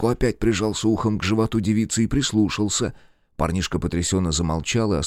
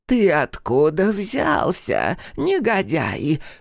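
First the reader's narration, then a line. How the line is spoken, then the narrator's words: Creaky voice. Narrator (Russian): спросил кто-то скрипучим голосом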